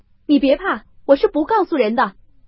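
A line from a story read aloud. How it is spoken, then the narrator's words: Calling out. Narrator (Chinese): 宝玉又赶出去叫道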